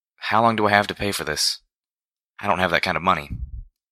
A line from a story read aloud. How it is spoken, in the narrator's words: With a sigh, asked